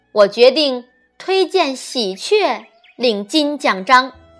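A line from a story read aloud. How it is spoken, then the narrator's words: Loud hurried announcement. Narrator (Chinese): 连忙高声宣布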